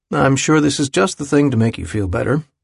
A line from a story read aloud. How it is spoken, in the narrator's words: he'd said dryly